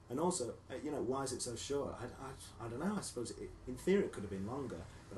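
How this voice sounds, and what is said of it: Northern English accent. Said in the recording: “you can still hear it in my accent, you know. I speak to my mum and I go even more northern”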